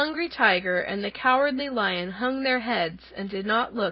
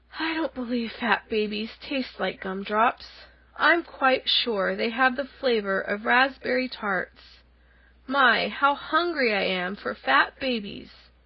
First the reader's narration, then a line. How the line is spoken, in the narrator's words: The lion grunted disdainfully